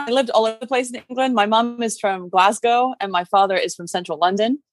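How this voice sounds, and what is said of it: Mixed British accent. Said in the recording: “varieties of British accent ... I have a really weird conglomerate accent”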